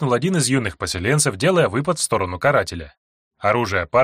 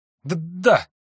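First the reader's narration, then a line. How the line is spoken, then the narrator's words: Stuttering young man. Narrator (Russian): заикаясь, ответил юноша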